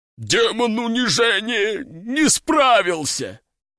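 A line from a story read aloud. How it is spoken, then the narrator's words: Strained, forced out. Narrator (Russian): Только и смог выдавить он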